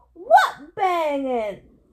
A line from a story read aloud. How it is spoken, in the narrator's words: Outside, Eddie yelled